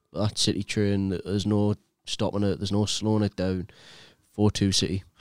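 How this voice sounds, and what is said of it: Put-on Scottish accent. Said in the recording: “How Scottish did you sound there? ... Just stick to one accent.”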